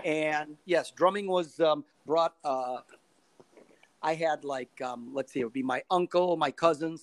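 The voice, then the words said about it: Chicago accent. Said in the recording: “I'm from Chicago, as you could tell from this accent of mine.”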